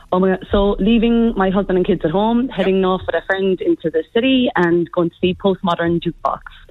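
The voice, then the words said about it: Irish accent. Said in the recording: “the Irish accent stays with me ... your accent's never going to go”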